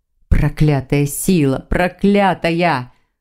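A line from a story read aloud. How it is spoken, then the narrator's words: Growling. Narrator (Russian): Он зарычал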